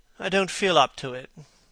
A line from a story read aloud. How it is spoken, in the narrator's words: said Dorian wearily